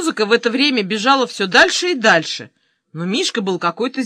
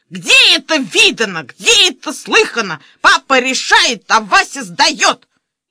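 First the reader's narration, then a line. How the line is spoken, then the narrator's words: Furious yell. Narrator (Russian): заорал со страшной злостью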